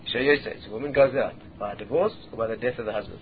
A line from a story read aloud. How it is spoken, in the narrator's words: Rabbi Akiva quietly said to him again